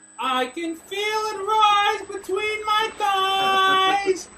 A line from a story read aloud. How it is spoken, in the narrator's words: cried the fair young maiden